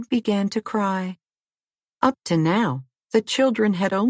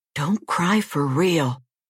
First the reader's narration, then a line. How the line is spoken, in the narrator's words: whispered George